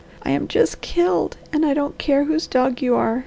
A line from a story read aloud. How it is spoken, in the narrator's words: sobbed the girl